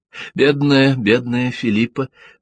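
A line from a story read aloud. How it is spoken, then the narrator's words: Sighing. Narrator (Russian): вздохнула она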